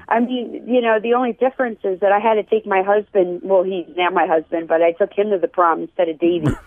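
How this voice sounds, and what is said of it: Mixed Philadelphia-New York accent. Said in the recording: “I have a little bit of a mixed accent... I'm from Philadelphia... my accent is kind of all over the place”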